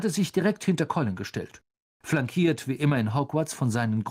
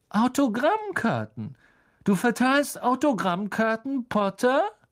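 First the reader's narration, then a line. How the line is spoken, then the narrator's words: Loud, cutting, echoing. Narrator (German): Laut und schneidend hallte Draco Malfoys Stimme im ganzen Hof wider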